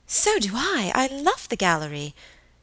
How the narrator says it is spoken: Helen would have exclaimed

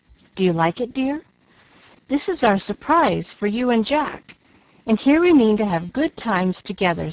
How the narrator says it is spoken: said Mrs

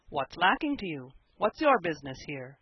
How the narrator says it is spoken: he said, in a conciliatory tone

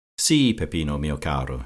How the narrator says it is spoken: she said

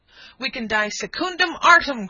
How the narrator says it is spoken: cried the trooper

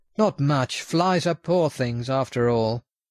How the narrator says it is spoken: With a laugh he replied

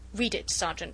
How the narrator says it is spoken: said the latter curtly

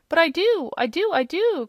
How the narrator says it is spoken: cried the little man, interrupting him

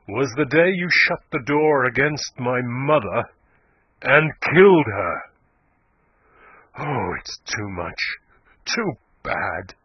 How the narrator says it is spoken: said Yeobright, his voice growing louder and harsher

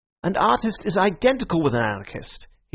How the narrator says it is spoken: he cried

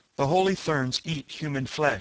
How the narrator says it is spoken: she answered me

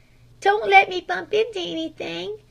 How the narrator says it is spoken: begged the blindfolded Flame

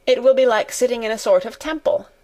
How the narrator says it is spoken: said Colin

